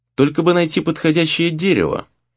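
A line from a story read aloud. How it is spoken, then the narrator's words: Thoughtful, aloud. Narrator (Russian): произнес он вслух задумчиво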